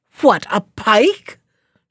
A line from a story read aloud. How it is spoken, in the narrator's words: shouted the secretary